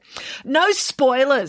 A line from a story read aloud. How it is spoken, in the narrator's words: snapped Daisy Odin's daughter